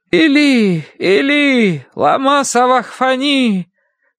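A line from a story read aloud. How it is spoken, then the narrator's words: Loud anguished cry. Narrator (Russian): возопил Иисус громким голосом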